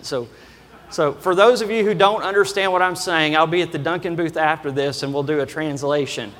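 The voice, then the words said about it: Kentucky accent. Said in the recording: “my normal Kentucky accent”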